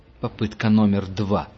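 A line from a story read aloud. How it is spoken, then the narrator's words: Through gritted teeth. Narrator (Russian): процедил сквозь зубы стоявший рядом с Густавом охотник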